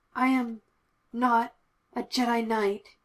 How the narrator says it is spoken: he growled at the memory

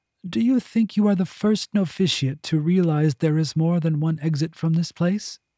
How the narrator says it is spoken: Gulsoy chuckled again

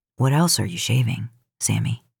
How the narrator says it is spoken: let his voice go rough when he asked

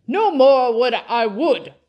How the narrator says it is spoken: cried the squire

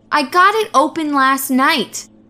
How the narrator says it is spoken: Gail returned sharply

